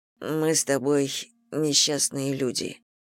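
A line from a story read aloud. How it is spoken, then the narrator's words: Mumble. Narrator (Russian): пробормотал Костя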